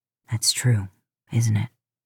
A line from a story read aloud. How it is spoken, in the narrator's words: He asked, voice dropping to a deep whisper